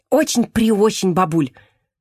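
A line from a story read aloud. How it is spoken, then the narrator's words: Hurried confirmation. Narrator (Russian): торопливо подтвердила Лида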